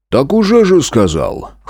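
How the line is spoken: Snort. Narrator (Russian): хмыкнул Разрядов

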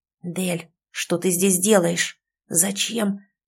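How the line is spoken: Worried hiss, familiar voice. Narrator (Russian): обеспокоенно прошипел знакомый голос

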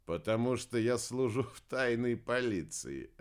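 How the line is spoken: Laughing. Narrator (Russian): рассмеялся Уран

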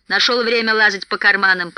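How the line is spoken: Grumbling. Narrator (Russian): проворчал Бомбур

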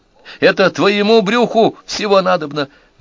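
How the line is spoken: Shrieked. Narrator (Russian): взвизгнул Зел

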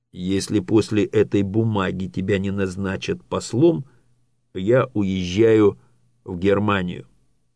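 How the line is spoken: Plain. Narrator (Russian): сказал Зорге Отту

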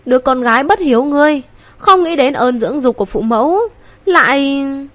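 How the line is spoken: Trembling tearful voice. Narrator (Vietnamese): Tử Bình Hưu hai mắt đỏ hồng run rẩy nói

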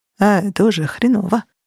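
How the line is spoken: Muttering. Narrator (Russian): пробормотал Лысый

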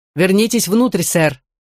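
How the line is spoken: Barked shout. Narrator (Russian): гаркнул ему Грин

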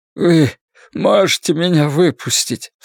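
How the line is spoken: Sobbing. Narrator (Russian): всхлипнул Ллойд

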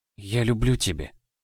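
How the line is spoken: Breathed, muffled into shoulder. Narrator (Russian): Выдохнула, утыкаясь лицом в его плечо

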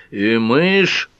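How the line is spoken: Loud proclamation. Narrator (Russian): громко провозгласил мистер Эндерсон

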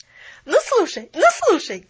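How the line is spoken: Loud laughter. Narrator (Russian): громко засмеялась

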